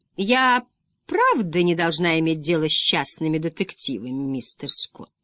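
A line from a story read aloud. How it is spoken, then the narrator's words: Throaty melodic purring female voice. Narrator (Russian): Гортанный голос девушки звучал довольно мелодично, словно мурлыканье тигра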